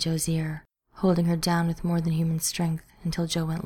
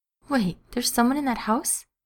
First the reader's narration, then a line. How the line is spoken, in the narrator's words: she squeaked